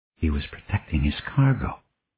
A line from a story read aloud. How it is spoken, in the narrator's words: Gordon whispered